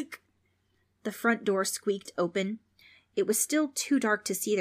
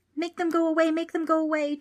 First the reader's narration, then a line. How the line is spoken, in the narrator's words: Trix cried